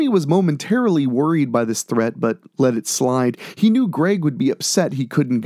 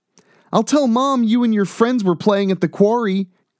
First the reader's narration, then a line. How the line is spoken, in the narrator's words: Greg exclaimed